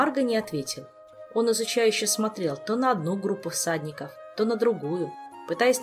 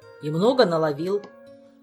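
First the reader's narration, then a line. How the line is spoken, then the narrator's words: Gloomy snapping retort. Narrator (Russian): мрачно огрызнулся первый паладин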